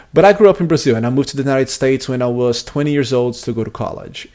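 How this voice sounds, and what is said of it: Slight Brazilian Portuguese accent. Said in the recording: “I'm actually from Brazil ... I still have a little bit of an accent, even though it's not as thick of an accent as it was back in 2005”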